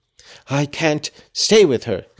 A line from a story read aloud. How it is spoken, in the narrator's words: he answered crossly